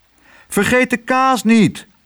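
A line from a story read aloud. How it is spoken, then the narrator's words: Calling out. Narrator (Dutch): riep Tos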